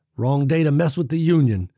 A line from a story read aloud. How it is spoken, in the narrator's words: Big Jim roared, laughing